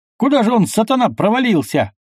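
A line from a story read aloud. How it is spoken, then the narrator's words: Shouting. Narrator (Russian): крикнул он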